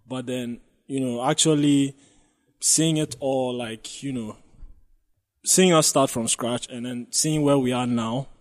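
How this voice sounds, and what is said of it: Voice breaking with emotion. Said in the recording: “wow, my voice is breaking.”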